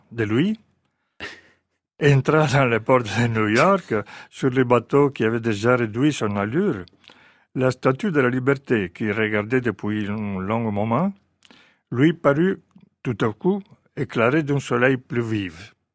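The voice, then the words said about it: Italian accent speaking French. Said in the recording (French): “c'est un charme fou, cet accent italien en français”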